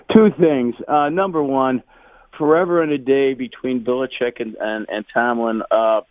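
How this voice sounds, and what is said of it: Hoarse, worn-out voice. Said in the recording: “My voice is gone because of the game last night.”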